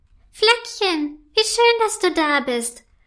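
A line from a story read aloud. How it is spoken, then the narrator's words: Happy call. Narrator (German): ruft erfreut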